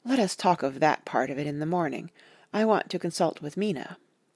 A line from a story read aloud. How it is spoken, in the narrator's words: Harker was silent for a while, and then said in a hollow voice